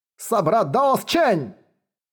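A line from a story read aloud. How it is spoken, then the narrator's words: Shouting. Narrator (Russian): большеголовый патриарх закричал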